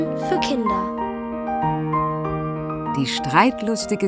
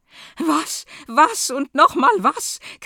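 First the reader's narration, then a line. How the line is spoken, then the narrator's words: Queen screeching. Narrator (German): kreischt die Königin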